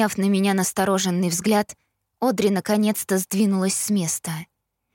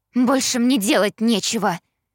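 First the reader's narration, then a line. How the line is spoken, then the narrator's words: Snapped. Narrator (Russian): огрызнулась Одри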